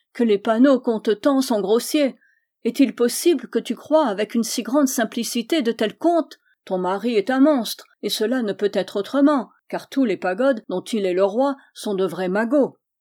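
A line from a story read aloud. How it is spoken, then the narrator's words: Queen exclaiming. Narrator (French): s'écria la reine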